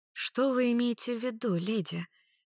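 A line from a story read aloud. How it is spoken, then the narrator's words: Gentle asking, young woman. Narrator (Russian): нежным голосом спросила студентка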